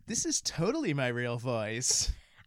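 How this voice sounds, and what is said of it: Put-on Valley girl voice. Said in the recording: “Your Visco girl voice? ... Or your Valley girl?”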